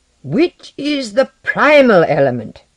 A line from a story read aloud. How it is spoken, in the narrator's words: Lenoir shouted, his eyes fiery